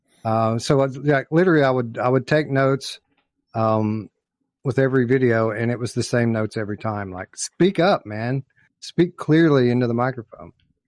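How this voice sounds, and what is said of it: Thick accent. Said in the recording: “I know a lot of people think I have a thick accent now. It was way worse back then.”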